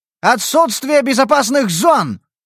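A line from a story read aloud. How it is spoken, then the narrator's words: Shouted. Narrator (Russian): выкрикнул я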